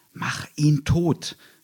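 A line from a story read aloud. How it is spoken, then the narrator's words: Sudden loud shout. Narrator (German): hörte sich Broschkus plötzlich laut rufen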